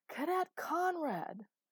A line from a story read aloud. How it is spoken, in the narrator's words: The echo of his scream bounced around the otherwise empty stage of stone